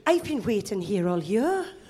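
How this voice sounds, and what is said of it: Good put-on Welsh accent. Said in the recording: “That's a banger Welsh accent. That's a good Welsh accent. ... that's like Postman Pat level good”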